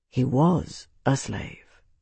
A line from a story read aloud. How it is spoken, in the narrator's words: Tavi replied quietly